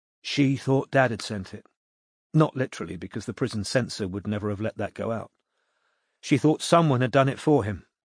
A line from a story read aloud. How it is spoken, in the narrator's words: said Maya, speaking more quietly so that the newcomers couldn't hear her